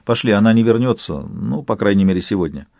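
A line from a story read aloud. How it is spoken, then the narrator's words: Calm speech. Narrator (Russian): Яна спокойно сказала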